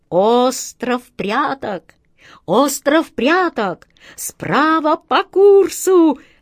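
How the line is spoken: Jubilant shout from swallow. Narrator (Russian): ликующим голосом закричала ласточка

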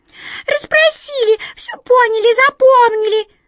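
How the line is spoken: Squeaking mice. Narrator (Russian): запищали мыши

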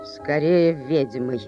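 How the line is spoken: Gloomy. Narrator (Russian): мрачно поправил Макдьюи

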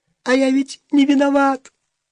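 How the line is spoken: Squeaky voice. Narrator (Russian): сказал он писклявым голосом

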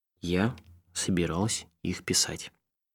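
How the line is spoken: Very slow. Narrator (Russian): И очень медленно сказала

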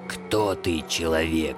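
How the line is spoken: Hoarse question. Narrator (Russian): хрипло спросил Сыч

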